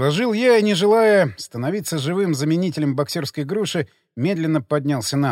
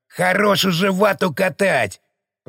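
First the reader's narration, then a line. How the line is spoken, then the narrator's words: Hissed from behind. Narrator (Russian): прошипели сзади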